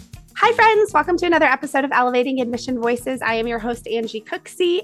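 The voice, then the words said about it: Strained, worn-out voice. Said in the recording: “pardon my voice. I did a college fair last night, and I'm just out of shape. My voice is out of shape... you forget how much work that is sometimes to exercise those vocal cords”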